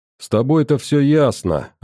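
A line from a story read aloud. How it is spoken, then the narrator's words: Plain. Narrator (Russian): ответил я миллениуму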